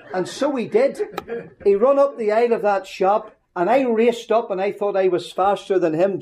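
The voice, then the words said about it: Northern Irish accent. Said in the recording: “my sweet Northern Ireland accent”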